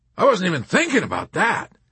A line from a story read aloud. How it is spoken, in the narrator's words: cried the colonel